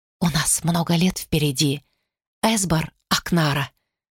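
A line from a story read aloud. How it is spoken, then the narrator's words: Whispered. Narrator (Russian): шепнула она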